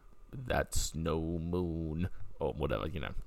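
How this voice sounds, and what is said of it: Weak Obi-Wan Kenobi impression. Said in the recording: “Obi-Wan Kenobi. ... You could do a better impression, probably.”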